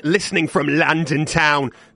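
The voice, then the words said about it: Awful put-on London accent. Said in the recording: “That was an awful accent. I'm so sorry, any London listeners”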